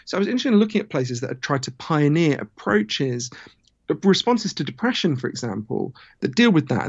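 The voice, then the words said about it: British accent. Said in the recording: “my weird Downton Abbey accent, I'm from Britain”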